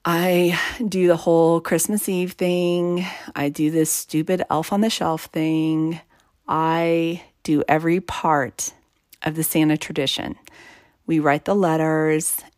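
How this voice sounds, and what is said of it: Joyless, flat tone. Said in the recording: “as you can probably tell from my tone right now, there's not a ton of joy in my heart over it”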